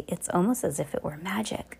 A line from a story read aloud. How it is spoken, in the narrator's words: Then he whispered to Heidi